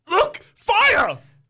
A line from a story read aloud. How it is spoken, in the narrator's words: you shout